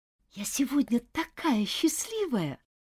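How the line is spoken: Whisper. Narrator (Russian): прошептала Джоан своей подруге

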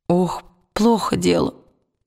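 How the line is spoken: Groaning. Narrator (Russian): простонал сосед Уилла

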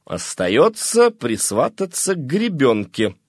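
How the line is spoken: Plain. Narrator (Russian): сказал воротничок

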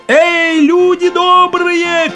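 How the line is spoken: Shout while running. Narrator (Russian): крикнул он на бегу

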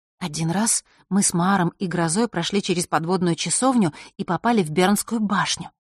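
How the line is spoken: Very soft whisper. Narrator (Russian): тихо-тихо прошептала Василиса

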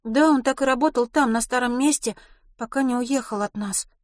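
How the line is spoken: Plain. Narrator (Russian): сказала Милослава

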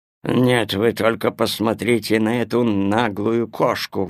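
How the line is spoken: Grumbling dog. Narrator (Russian): ворчал пес Тило

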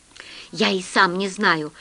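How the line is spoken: Plain. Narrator (Russian): ответил хозяин говоруна

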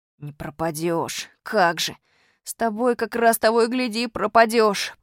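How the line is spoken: Groaning. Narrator (Russian): простонал Костя Малинин

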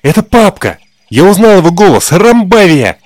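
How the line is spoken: Exclaimed. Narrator (Russian): воскликнул Олежка

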